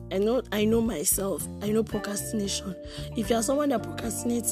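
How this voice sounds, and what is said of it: Congested voice from a cold. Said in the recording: “my voice sounds weird. I have a cold.”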